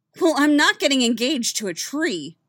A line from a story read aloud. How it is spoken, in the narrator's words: snapped